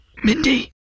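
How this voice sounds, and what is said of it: Loud, furious whisper. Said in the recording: “my mother loudly whispered my name in a furious voice.”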